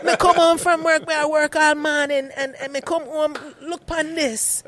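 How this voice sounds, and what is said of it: Put-on Caribbean accent, scolding. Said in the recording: “my mom being a Caribbean, she start yelling at you right away ... Can you do the rest of the podcast in that accent? ... I don't know if I could ever take anybody seriously mad at me in that accent”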